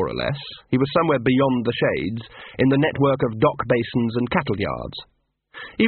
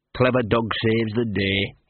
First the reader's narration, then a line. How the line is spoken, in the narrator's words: he muttered